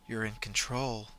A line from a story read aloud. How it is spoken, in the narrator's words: whispered